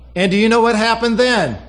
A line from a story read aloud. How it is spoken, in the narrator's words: Susie asked loudly